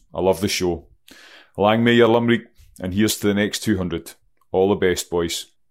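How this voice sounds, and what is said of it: Scottish accent. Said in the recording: “from Scotland here ... it took a little time for you guys to get used to my accent”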